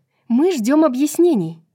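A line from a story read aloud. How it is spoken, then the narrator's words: Sharp. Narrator (Russian): резко заявила Аполеону Брайс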